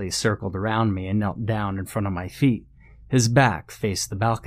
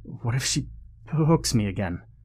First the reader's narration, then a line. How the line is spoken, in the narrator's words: Peter stammered